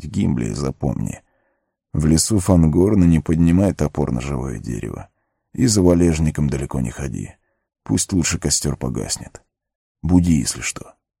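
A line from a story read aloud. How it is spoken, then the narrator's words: Sleepy indistinct mumble. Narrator (Russian): Арагорн заснул сразу же, едва успев невнятно пробормотать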